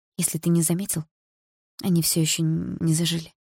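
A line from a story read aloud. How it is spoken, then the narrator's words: Hoarse. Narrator (Russian): хрипло ответила я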